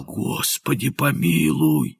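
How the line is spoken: Hoarse frightened whisper. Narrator (Russian): Тот, бледный как полотно, хрипло прошептал

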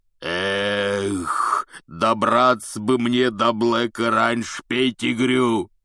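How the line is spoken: Roar. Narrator (Russian): взревел Хагрид

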